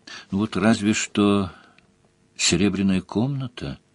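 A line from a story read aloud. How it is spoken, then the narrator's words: Uncertain. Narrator (Russian): неуверенно сказала Делия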